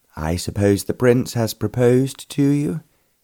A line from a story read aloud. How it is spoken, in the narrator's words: he said